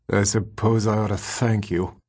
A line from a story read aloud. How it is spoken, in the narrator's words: the rat muttered